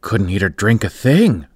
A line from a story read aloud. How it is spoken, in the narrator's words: cried the other